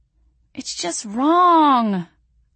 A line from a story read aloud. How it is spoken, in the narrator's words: I whimpered